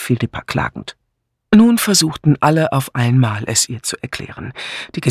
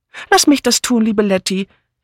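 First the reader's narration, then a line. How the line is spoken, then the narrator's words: Calling out. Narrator (German): rief Miss Banner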